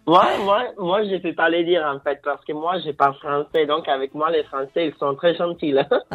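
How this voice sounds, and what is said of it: Italian accent speaking French. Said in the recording (French): “t'as un accent italien”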